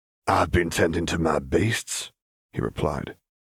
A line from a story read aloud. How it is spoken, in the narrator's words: his voice painfully raspy